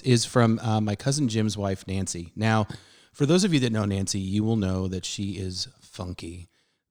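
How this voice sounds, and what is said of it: Hoarse, fading voice. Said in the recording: “I'm losing my voice,”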